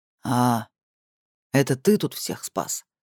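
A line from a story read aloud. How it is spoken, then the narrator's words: Deep voice mimicking donkey. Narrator (Russian): Ос говорил басом, но голос осла подражал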